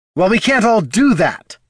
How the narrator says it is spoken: snapped Heraldin

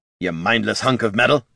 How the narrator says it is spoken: Gorm snarled

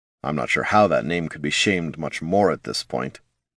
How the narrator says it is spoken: the Omnimancer muttered

